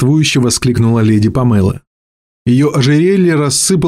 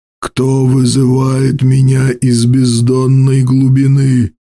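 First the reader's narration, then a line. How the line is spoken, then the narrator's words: Hoarse wild unfamiliar voice. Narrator (Russian): Голос был совершенно не похож на его собственный, хриплый, дикий, жаждущий нечестивых забав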